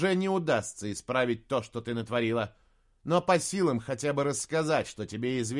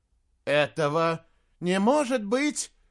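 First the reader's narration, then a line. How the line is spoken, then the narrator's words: Exclamation. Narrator (Russian): воскликнула Варшева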